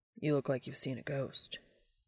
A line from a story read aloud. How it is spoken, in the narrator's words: Dean whispered to him